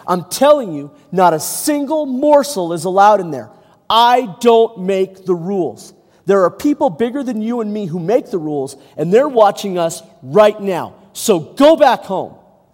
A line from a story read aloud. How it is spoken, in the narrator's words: the soldier could take no more, and he shouted at the boy